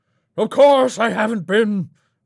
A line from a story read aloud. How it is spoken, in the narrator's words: Raymond howled